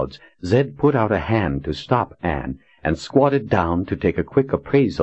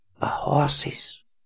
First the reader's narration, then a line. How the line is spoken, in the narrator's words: whispered